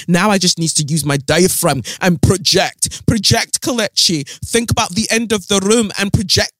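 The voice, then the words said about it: Badly done put-on accent. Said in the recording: “that's such a terrible accent.”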